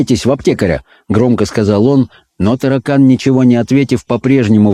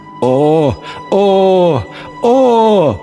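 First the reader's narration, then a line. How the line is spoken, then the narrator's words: Old man groaning. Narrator (Russian): застонал старик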